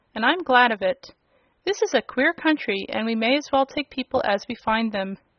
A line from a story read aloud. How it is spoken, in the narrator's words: said Uncle Henry, with a laugh